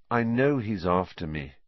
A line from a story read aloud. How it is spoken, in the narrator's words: said Harry wearily